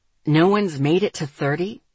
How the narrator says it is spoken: Asher asked sharply

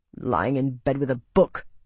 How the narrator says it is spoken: he growled to Marcus

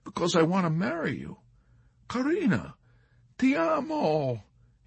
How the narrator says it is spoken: he explained

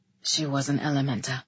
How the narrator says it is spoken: he said, nearly under his breath

